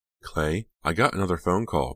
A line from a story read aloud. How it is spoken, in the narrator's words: Pam said anxiously, the words spilling out of her